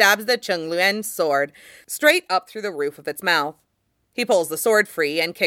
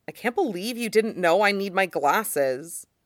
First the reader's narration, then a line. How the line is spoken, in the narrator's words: Peerless Cucumber mutters